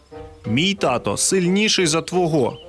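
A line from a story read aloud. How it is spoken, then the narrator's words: Plain. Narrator (Ukrainian): сказав Петті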